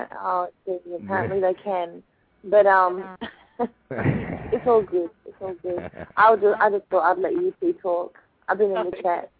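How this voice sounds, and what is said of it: Appealing foreign accent. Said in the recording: “your accent. I bet everybody could just listen to your accent all day long”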